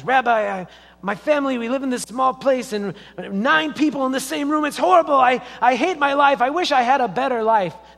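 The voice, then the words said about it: Put-on Jewish accent. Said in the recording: “There's my Jewish accent. Sorry, the best I can do.”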